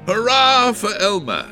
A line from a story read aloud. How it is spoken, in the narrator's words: shouted the elephants